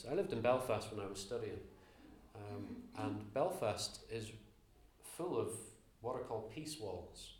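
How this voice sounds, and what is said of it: Slight Northern Irish accent. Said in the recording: “my slightly Northern Irish accent”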